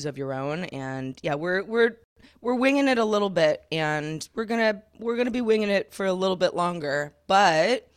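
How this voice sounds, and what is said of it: Gravelly, old-sounding morning voice. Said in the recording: “if I sound like I am 90 years old ... my voice is weird first thing in the morning ... my gravelly Joan Crawford voice”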